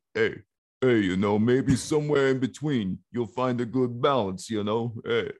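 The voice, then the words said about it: Dumb-sounding imitation of another person's voice. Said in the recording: “extremely simplistic Sylvester Stallone ... That was pretty good impression ... I can sound dumb, man ... Such a good impression of stupid”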